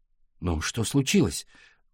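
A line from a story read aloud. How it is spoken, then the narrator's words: Exhaled. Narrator (Russian): выдохнул Валя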